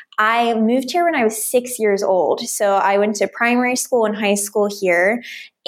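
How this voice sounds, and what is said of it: American English accent. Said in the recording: “I am originally from the United States, as you can obviously hear in my accent”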